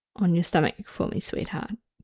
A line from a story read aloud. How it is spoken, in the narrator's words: he whispered